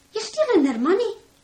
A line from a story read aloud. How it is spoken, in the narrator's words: Katie cried